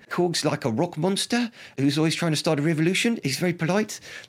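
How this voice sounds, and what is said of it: Attempted New Zealand accent. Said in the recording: “That's my attempt at my Kiwi accent. Apologies there.”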